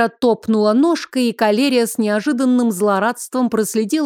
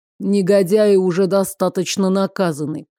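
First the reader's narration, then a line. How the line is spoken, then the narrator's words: Calm. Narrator (Russian): спокойно сообщил Терр Лерт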